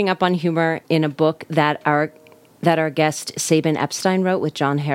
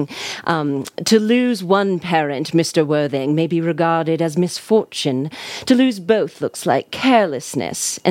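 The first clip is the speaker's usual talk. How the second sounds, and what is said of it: Unpracticed put-on British accent. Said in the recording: “my unpracticed British accent”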